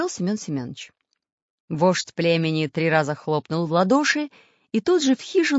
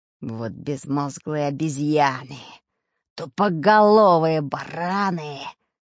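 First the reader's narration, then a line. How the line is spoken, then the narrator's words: Furious hissing in ear. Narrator (Russian): покраснев от злости, прошипел на ухо дырки взбешенный Буль-Буль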